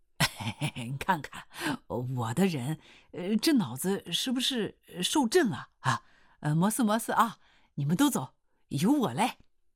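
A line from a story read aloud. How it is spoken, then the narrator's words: Laughing. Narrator (Chinese): 刘洪兵刺啦一笑说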